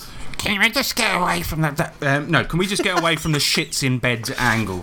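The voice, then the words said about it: Imitates another person's voice. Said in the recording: “let me do his voice properly”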